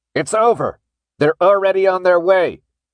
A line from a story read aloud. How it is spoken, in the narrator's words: he shouted again in that creepy, mechanized voice